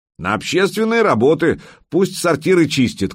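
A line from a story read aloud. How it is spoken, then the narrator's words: Shouted. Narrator (Russian): крикнул кто-то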